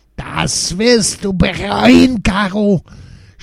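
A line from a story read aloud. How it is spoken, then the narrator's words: Scream. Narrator (German): schrie sie weiter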